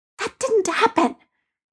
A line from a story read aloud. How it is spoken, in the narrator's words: Peter hissed at Ned